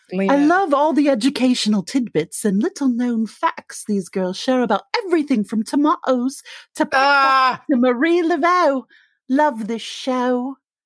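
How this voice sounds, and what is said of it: Wandering put-on accent. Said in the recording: “I don't know what this accent is. I don't either. I didn't pick one ... I feel like you walked around that accent a little bit ... It ended really Penny Scott Andrews-y”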